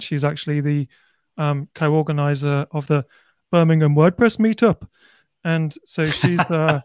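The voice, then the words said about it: Brummie accent. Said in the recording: “did you deliberately say that in a Brummie accent? ... I'm a native Brummie. I just try and hide it a bit when I'm doing this.”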